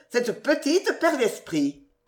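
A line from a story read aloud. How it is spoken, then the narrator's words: Exclaimed. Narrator (French): s'écria tante Adélaïde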